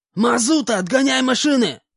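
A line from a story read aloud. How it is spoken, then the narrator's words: Shout. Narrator (Russian): крикнул Хобот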